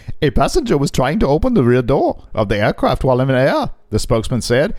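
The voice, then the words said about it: Imitated Indian accent, not very convincing. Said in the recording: “I apologize that my India accent is nowhere near as good as my co-host because he's got it down”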